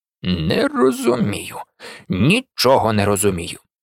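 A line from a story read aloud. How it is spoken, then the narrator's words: Muttered. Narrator (Ukrainian): бурмотів Калеб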